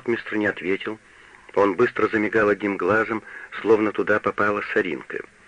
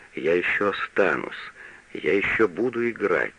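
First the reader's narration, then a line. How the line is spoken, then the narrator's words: Undertone. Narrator (Russian): сказал вполголоса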